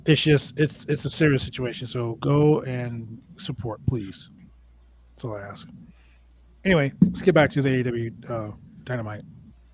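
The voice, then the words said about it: Raspy voice. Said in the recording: “my voice is a little raspy”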